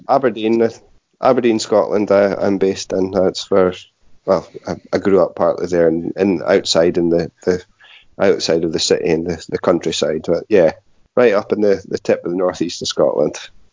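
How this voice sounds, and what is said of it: Scottish accent. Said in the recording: “Do I detect a northern accent with you? ... Scottish”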